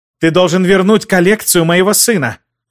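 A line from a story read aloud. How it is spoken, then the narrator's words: Angry shout. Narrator (Russian): зло выкрикнула Кэтрин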